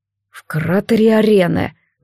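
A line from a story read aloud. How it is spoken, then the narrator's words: Dull, muffled. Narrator (Russian): Глухо отозвался рыжий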